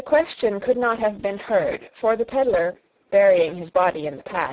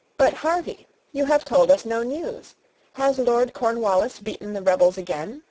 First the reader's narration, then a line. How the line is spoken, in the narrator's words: Sarah observed in a cheerful voice